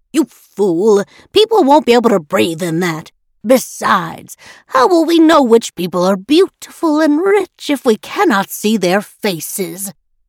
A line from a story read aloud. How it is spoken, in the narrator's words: said with a sneer